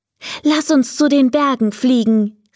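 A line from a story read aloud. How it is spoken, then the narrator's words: Calling out. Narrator (German): rief er dem Drachen zu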